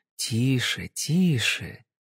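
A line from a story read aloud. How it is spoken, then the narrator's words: Soft repetition. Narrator (Russian): мягко повторила Кэсси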